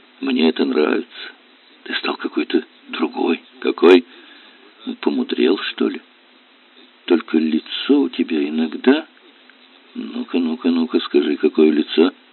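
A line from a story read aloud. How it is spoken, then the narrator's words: Whisper. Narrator (Russian): Аннушка прошептала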